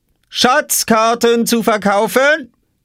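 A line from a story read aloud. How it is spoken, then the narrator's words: Calling out, hawking. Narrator (German): rief Oskar hinter seiner Obstkiste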